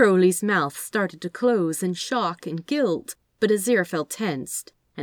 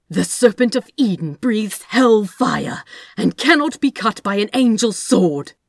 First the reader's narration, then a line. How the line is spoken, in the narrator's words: Aziraphel snapped